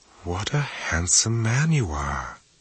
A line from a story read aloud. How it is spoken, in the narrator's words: she whispered